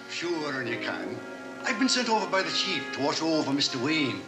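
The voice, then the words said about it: Heavy exaggerated Irish accent. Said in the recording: “Listen to this Irish accent ... He's so Irish, he can't actually make words.”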